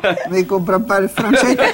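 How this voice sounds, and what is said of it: Slight foreign accent, imitated voice. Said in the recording (French): “j'entends un léger accent”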